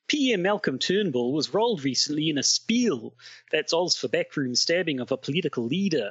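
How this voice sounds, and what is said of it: Put-on Australian accent. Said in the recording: “this beautiful Australian accent”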